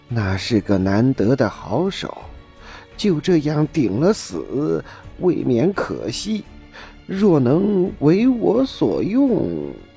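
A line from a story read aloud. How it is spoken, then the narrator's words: Lowered, cautious voice. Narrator (Chinese): 齐木点唯恐展昭生疑，只将声音又压低了许多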